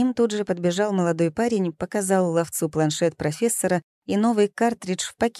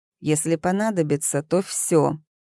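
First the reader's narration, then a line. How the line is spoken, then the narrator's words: Hissed. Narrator (Russian): прошипел ловец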